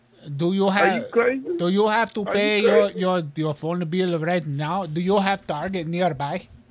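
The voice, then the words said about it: Put-on foreign accent. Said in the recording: “How did your accent change, sir?”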